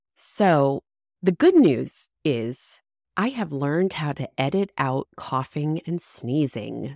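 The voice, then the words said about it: Congested, under-the-weather voice. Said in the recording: “the elephant in the room, my voice. I am currently working to get over a sinus infection. So although I'm feeling better, my voice is not 100%.”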